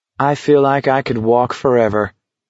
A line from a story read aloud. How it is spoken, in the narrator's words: he said blandly